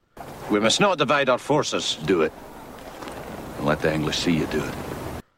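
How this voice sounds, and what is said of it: Put-on Scottish accent. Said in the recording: “my Scottish accent is terrible... he was pretty good”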